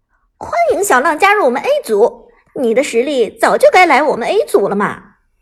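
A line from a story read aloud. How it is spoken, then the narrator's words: Smiling warmly. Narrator (Chinese): 老 K 笑容满面的说道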